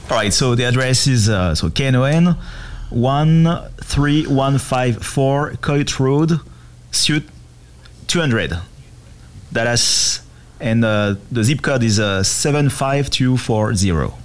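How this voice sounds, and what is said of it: Put-on French accent. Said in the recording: “How about that French accent?”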